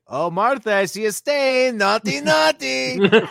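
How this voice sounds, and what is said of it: Bad Borat-style accent impression. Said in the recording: “that bad Borat impression”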